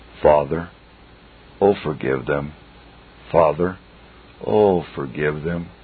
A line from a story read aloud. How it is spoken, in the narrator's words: every drop that falls still cries